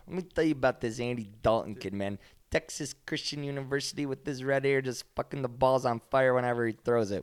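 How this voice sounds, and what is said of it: John Gruden impression. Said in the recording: “your John Gruden impression”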